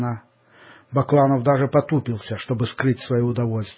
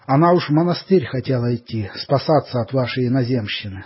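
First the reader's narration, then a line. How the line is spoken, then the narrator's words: Plain, mother. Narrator (Russian): сказала мать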